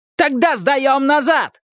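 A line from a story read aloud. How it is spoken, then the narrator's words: Yelling. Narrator (Russian): завопил Джикс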